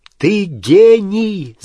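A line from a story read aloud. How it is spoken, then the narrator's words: Shouting. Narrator (Russian): закричал Гарри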